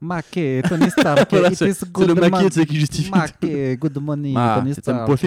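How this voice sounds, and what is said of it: Usual voice. Nothing is said of it.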